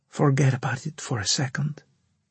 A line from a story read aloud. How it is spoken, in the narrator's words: she whispered